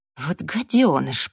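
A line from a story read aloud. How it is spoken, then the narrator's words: Hissing. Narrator (Russian): прошипела Эбби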